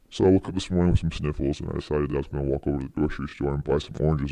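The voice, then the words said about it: Funny put-on voice. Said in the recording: “a serious story and a funny voice”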